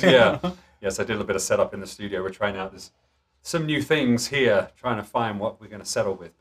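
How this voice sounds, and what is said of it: Fast, slightly out of breath speech. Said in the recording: “You're talking a little faster over there, a little out of breath.”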